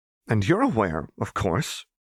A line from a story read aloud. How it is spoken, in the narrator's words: Seraphine echoed tightly